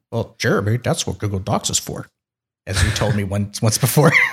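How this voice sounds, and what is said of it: Impression of a co-host. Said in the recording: “How's my Jeremy impression?”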